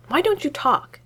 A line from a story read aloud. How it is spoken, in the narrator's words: blurts out